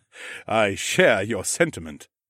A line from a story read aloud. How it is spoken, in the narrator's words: the Ramlord chuckled